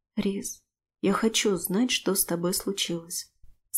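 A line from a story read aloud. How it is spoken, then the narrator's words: Quiet. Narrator (Russian): сказала тихо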